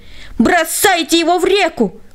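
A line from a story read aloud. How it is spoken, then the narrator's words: Crowd yelling. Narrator (Russian): они все завопили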